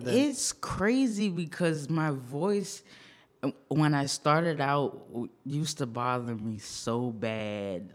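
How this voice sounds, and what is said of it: Raspy, heavy voice. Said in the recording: “it's rather raspy ... It's a little heavier than the beat sometimes”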